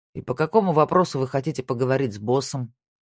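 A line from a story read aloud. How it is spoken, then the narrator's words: Bored question. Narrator (Russian): спросил он скучающим тоном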